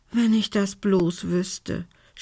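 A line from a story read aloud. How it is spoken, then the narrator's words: Groaning. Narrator (German): stöhnte Belinda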